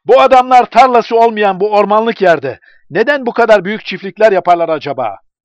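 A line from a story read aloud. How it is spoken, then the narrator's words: Shouted. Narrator (Turkish): diye bağırdı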